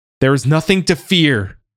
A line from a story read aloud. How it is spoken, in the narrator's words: he yelled